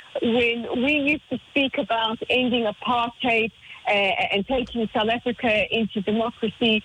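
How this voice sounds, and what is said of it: South African accent. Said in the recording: “as many of you can tell by my accent, I'm originally from South Africa.”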